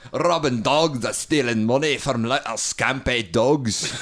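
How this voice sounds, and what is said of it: Good put-on Scottish accent. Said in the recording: “does a really good Scottish accent ... Yeah, that's pretty good.”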